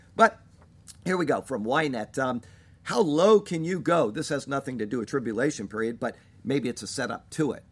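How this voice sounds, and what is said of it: Congested voice from a cold. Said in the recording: “my voice is off, I've just got a really bad cold and I'm kind of lacking some spunk”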